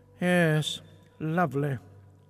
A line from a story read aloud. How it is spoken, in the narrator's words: replied Ray coldly